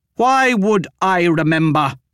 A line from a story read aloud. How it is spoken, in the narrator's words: Bidea shouted, her face flushed red